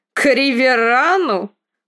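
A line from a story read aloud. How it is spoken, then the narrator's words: Snorting. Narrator (Russian): Фрей фыркнул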